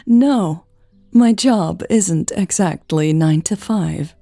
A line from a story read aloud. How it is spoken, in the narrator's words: Eleanor laughed